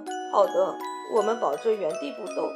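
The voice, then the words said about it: Quiet, frightened whisper. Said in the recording (Chinese): “卡梅利多吓坏了，小声地说”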